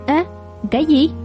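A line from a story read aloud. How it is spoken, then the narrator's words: Plain. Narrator (Vietnamese): Ông nói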